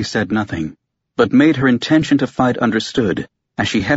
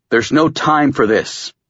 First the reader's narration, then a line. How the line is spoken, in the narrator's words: Kurt growled